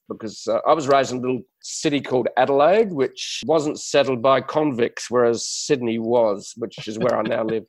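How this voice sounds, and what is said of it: Australian accent with English touch. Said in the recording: “I speak with a strange accent. For some other people around the world, it's an Aussie accent with a touch of English”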